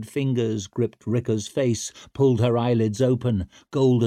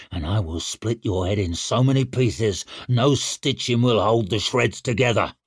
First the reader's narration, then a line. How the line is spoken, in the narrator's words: snarled Shivers